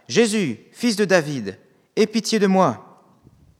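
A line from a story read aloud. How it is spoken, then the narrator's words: Exclaiming. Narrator (French): Et il s'écria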